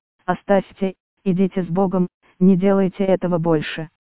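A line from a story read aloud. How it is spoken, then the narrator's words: Calm. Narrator (Russian): Отец Арсений спокойно сказал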